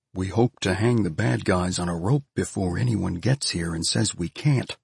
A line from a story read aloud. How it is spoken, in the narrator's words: Faez translated quietly enough for the words to reach Elvie's ears and no farther